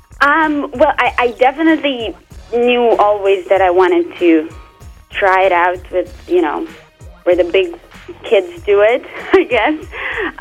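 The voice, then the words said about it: Noticeable non-native accent. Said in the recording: “I'm still working on my accent. As you can see, it's not working out for me that well.”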